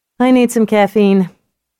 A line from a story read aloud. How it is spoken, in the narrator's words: Rosie laughed